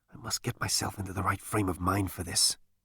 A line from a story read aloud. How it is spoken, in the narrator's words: muttered Zaphod